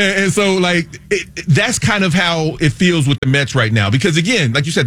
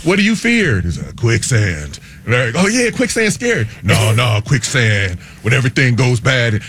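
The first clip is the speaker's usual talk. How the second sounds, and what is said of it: Imitates another person's voice. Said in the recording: “my Keanu Reeves impression ... it's good. I was digging it.”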